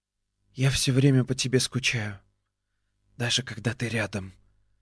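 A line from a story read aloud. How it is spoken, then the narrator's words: Whispering. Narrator (Russian): прошептала она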